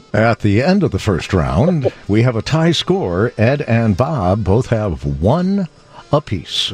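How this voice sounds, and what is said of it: Announcer voice. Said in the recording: “put on that announcer voice”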